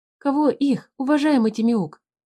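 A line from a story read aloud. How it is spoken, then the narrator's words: Frightened whisper. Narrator (Russian): испуганно прошептал Туупань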